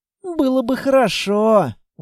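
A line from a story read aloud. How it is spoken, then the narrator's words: Sighed. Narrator (Russian): вздохнула Анна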